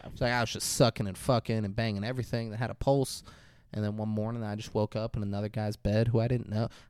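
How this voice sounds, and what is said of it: Put-on Southern accent. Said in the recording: “I'm doing the southern accent.”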